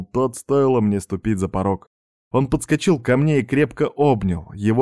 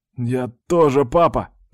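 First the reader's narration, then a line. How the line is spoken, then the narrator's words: Hoarse rasp. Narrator (Russian): прохрипел я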